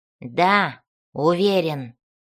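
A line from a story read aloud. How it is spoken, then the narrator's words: Barked. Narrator (Russian): рявкнул Бреннер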